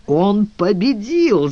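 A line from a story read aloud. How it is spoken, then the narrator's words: Laughing loudly. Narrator (Russian): захохотал Лепра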